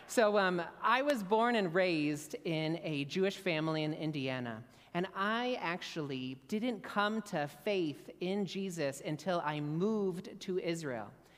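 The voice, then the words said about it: American Midwestern accent, not Israeli. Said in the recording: “my accent doesn't sound like Gal Gadot or another Israeli, and that's because I actually come from the state of Indiana.”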